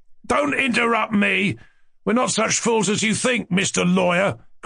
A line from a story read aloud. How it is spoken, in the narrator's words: cried Lebedev's nephew with spiteful vexation